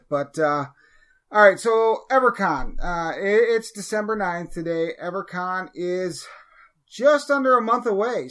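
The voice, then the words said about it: Sick, strained voice. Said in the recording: “you'll probably be able to tell by my voice, I'm fighting something, a cold ... if my voice comes and goes tonight”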